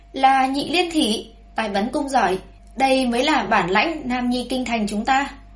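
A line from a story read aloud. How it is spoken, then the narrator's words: Loud cheering call. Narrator (Vietnamese): có người lớn tiếng kêu gọi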